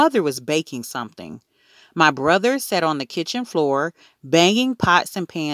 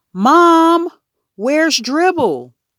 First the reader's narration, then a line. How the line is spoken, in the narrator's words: hollered